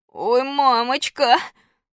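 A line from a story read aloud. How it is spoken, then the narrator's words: Sobbing, after deep breath. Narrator (Russian): Громко всхлипнув, Костя глубоко вздохнул и вместо волшебных слов заклинания сказал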